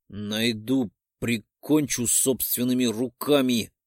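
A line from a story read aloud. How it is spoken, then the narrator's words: Muttered through teeth. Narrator (Russian): Цедю сквозь зубы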